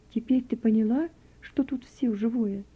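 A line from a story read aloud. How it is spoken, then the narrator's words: Gentle, affectionate. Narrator (Russian): ласково продолжала Надежда Дмитриевна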